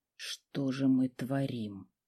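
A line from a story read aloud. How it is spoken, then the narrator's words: Whisper. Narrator (Russian): прошептал мужчина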